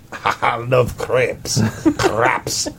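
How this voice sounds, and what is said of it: Put-on accent. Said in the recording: “say that you love crepes in your accent”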